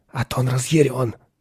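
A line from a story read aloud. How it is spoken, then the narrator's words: Whispered. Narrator (Russian): прошептал он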